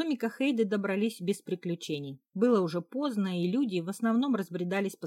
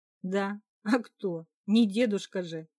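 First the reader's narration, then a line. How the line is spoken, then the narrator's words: Laughing. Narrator (Russian): рассмеялась я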